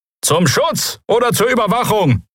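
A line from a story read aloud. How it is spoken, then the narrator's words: Someone called out. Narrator (German): rief jemand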